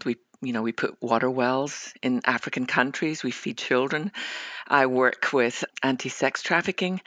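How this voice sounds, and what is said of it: Scottish accent. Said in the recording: “you can probably tell by my accent that I might live in Dallas, Texas, but I was born on the west coast of Scotland”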